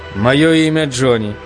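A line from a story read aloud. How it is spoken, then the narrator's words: Plain. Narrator (Russian): сказал я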